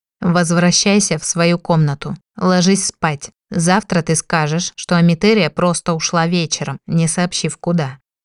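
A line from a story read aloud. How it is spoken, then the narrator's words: Even commanding tone. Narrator (Russian): ровным тоном приказал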